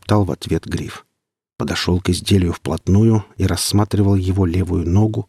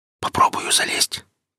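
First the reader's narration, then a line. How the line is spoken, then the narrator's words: Whispered. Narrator (Russian): прошептал он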